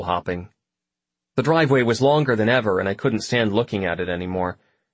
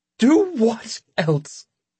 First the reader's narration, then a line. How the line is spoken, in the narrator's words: She shouted, and her voice broke like it never had before